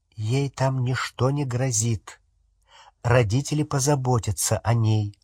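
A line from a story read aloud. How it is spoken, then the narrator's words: Plain. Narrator (Russian): ответил Люпин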